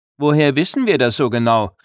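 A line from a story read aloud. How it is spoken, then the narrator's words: Calling out. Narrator (German): rief jemand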